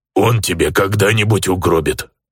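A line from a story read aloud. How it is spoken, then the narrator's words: Grumbled. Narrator (Russian): проворчал Бисквит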